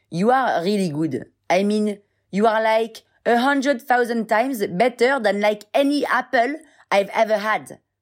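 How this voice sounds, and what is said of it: Put-on English accent. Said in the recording (French): “je prenne un vrai accent anglais ou un accent pourri”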